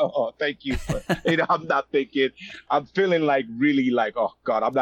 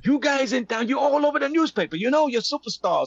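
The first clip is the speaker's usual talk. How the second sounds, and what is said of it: Put-on South African accent. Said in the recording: “with a South African accent.”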